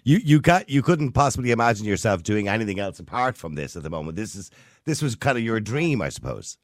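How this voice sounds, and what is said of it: Irish accent. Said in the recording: “your accent is a bit hard ... That's typical Irish.”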